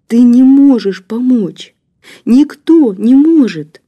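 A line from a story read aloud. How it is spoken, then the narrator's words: Sobbing, hopeless. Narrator (Russian): всхлипывая, обреченно ответила Женя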